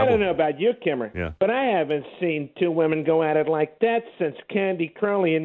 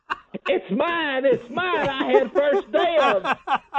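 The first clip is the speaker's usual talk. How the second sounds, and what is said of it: Imitates another person's voice. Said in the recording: “Impersonation of Nancy Grace.”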